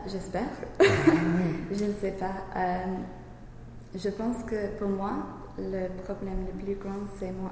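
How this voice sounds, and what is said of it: English accent speaking French. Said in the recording (French): “je sais que j'ai un accent anglais, parce que bien sûr, je suis anglaise.”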